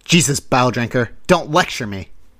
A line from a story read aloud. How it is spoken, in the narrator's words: I spat